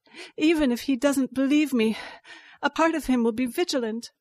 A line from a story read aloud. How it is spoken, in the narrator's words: I panted